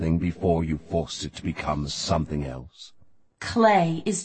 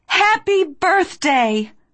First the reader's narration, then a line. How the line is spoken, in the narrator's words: I cried